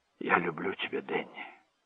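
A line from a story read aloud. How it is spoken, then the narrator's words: Whisper. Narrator (Russian): прошептал он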